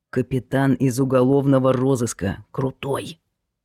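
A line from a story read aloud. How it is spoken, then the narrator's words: Hissed in ear. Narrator (Russian): тот прошипел ему на ухо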